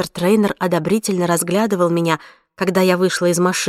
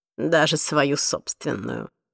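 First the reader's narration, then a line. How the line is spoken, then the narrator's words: Muttered. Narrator (Russian): пробормотала миссис Трейнер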